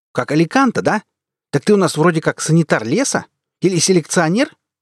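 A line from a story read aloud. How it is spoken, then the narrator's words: Barking. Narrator (Russian): рявкнула Эльга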